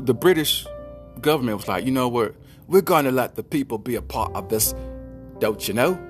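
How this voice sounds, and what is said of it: Bad put-on British accent. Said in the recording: “Bad impression. But you get it. It's a British accent.”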